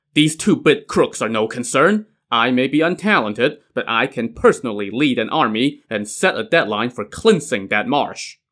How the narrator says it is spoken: Tong Guan now scoffed

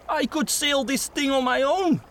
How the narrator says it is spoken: he exclaimed

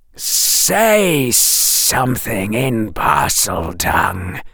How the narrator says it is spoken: hissed the snake

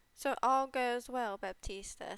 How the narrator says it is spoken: said he

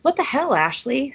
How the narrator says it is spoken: Cece says breathlessly

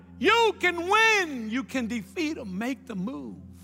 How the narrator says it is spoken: He shouted

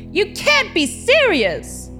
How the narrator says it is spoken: someone in the back shouted

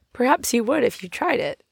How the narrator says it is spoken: Polly laughed

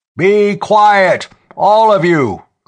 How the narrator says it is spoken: Clem Zareff was bellowing

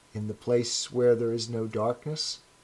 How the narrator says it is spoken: he said hesitantly

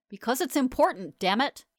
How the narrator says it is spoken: He barked in a tone I had never heard him use before

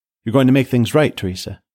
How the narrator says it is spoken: Paige asked, her tone almost hopeful

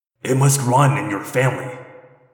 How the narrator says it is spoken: he growled

